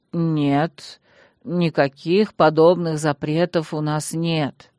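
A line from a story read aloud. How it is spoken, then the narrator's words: Sad. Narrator (Russian): печально глянул на меня магистр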